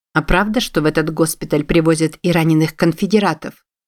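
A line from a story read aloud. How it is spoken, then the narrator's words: Plain. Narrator (Russian): спросила Вирджилия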